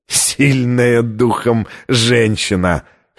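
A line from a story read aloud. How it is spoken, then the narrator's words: Hoarse laugh. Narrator (Russian): хрипло рассмеялся ассасин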